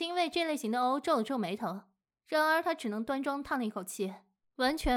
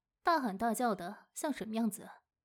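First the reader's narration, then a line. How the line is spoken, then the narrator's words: Mother's soft scolding. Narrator (Chinese): 母亲轻声责备道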